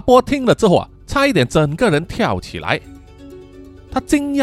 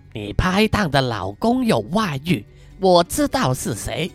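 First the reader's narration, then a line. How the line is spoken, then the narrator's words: Sinister whisper. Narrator (Chinese): 黑桃露出阴险的微笑啊 小声跟他说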